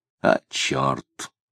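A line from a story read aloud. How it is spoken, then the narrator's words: Muttered curse. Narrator (Russian): пробормотал Тагильский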